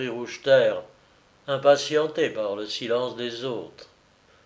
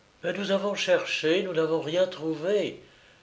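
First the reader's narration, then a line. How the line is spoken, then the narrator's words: Faint, lifeless voice. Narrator (French): fit Madame de Givreuse d'une voix éteinte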